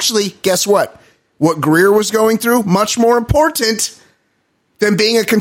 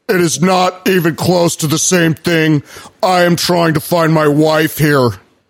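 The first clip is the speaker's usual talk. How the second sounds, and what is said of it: Imitated voice, Biff-like bully tone. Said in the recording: “He sounded like a bitch. ... your impression kind of sounds like, what's that spastic character on all the Back to the Futures? ... Biff. You kind of tap into a little of that.”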